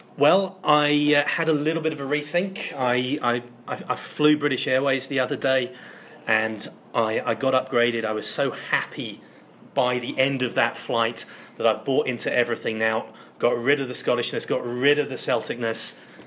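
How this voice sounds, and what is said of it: Fake English accent. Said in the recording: “Your English passport's finally come through then ... Stop putting on that fake accent.”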